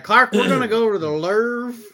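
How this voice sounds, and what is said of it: Madea character voice. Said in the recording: “doing a fucking Madea impression”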